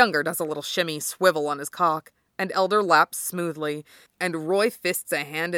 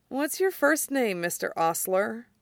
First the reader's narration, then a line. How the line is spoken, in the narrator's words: he mumbles